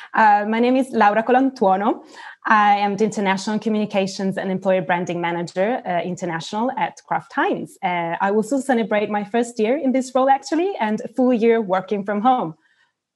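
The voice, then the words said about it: Accented English. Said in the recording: “beautiful accent ... she is based in the UK ... from Italy to the UK”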